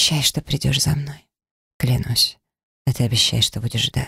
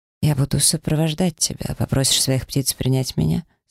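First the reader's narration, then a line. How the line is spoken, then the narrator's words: Calm inquiry. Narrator (Russian): спокойно поинтересовался Ягуар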